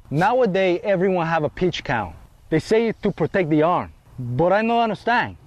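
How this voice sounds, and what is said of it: Bad put-on Latin American accent. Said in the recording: “a white dude doing an accent ... White dude doing a bad accent ... From Latin America”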